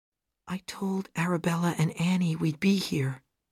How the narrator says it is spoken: she said quietly

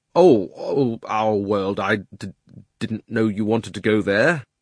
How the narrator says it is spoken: Diggory got very red in the face and stammered

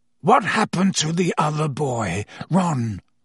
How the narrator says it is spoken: croaked Sirius

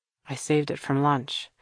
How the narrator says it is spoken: he explained to Kira in a low voice

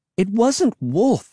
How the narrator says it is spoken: I cried

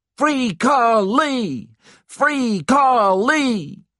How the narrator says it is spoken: the black people who had gathered around the square started to shout

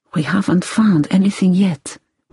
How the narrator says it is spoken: whispered LeBlanc, his voice worried

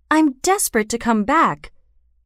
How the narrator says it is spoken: he cried

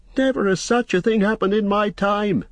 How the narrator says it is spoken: he cried, raising his hands in horror

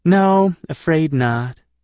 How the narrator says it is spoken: she answered wistfully

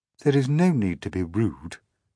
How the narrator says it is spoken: she said coldly

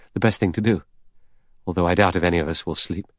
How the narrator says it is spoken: The doctor murmured

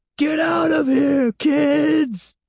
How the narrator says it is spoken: Catherine cried, her voice shrill and trembling, suddenly sounding very old

